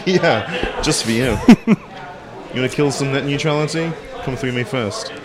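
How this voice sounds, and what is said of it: British accent. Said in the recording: “It doesn't sound that threatening with a British accent”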